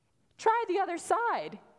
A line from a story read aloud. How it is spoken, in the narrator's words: cheerfully suggests